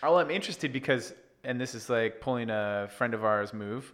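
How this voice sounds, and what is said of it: Usual voice. Nothing is said of it.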